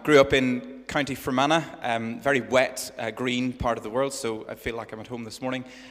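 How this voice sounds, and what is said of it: Northern Irish accent. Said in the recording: “your accent isn't a local Hampshire accent ... in Northern Ireland”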